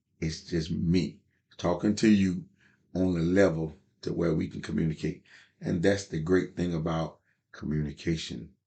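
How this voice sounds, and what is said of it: Small-town North Carolina Southern accent. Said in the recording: “I'm from an old, small country town in Tarboro, North Carolina. So, yeah, as you notice, my dialect is not etiquettely.”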